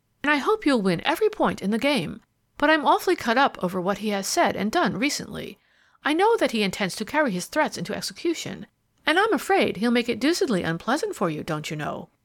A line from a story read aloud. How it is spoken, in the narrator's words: exclaimed heartily